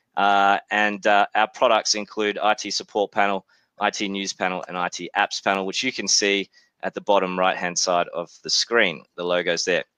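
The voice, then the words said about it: Australian accent. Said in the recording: “As you can tell from my accent, I'm obviously from Australia, but was born in New Zealand”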